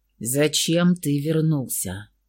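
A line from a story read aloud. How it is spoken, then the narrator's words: Icy question. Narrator (Russian): ледяным голосом спросил он у брата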